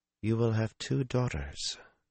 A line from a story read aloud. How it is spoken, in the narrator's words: Min murmured